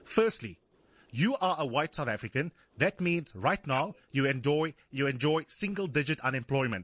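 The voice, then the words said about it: Black South African accent. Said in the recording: “as a black South African ... my accent”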